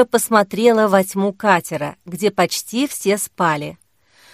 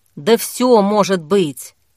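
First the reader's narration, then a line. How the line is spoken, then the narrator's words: Grumbling. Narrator (Russian): пробурчала Зоя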